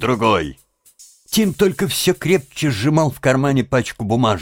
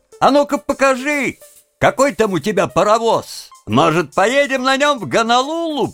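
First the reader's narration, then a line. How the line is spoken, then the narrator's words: Laughing shout. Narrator (Russian): Они хохотали над его ответом, и один из них крикнул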